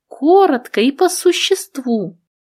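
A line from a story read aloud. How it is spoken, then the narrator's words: Normal voice. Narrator (Russian): Самий Самич сказал уже нормальным голосом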